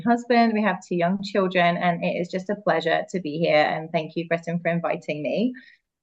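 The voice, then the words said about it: English accent. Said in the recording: “this accent is obviously not from America. I'm originally from England.”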